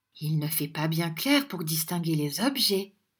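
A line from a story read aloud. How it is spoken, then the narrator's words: Murmured. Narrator (French): murmura Madame Nickleby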